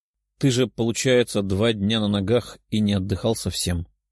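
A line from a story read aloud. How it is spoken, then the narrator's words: Young woman muttering. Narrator (Russian): пробормотала девушка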